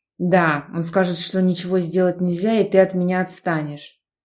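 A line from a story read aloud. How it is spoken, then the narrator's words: Sharp, harsh. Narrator (Russian): Прозвучало резко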